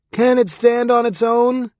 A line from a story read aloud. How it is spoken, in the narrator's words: A heckler from the audience shouted